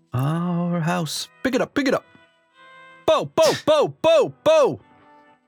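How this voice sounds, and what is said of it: Vocal imitation of ska music. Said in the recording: “my impression of ska”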